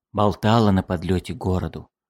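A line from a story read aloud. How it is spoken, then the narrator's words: Whispered. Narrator (Russian): шепнул Эссен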